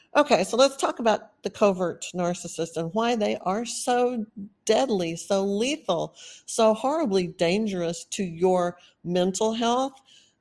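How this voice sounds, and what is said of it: Texan accent. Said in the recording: “I have a Texas accent ... now I'm hearing this really Texan accent”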